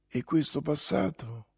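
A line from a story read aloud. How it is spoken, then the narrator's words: Whispered again. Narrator (Italian): sussurrò ancora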